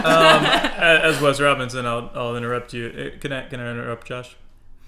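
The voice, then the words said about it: Flawless imitation of Wes Robinson. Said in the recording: “his flawless imitation”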